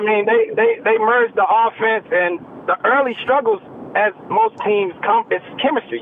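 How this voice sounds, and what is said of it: Regional hometown accent. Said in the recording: “I'm just enjoying his accent, man, because it takes me back to the crib.”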